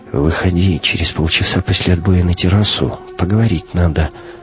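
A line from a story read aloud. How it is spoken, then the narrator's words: Whispered. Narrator (Russian): капитан шепнул Кате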